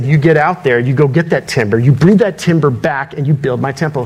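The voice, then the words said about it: Stern commanding dad voice. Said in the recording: “I just used my dad voice.”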